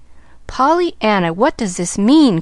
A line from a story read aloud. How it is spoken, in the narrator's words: cried Aunt Polly